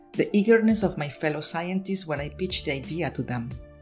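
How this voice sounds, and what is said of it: Distinctive accent. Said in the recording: “my unique accent, which I continue to work hard on so it doesn't trip understanding”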